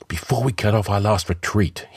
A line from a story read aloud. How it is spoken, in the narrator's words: hissed Taurus